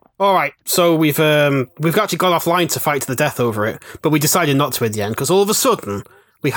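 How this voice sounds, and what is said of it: Usual voice. Nothing is said of it.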